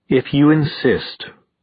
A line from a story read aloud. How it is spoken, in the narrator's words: she said icily